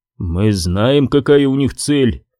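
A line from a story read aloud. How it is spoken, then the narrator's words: Gloomy remark. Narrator (Russian): мрачно заметил контроль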